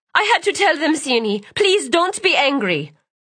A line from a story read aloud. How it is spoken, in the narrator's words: Clearly sensing her change in mood, Delilah cried